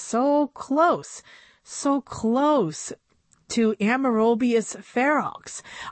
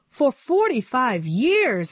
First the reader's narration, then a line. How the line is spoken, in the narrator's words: exclaimed Tiffany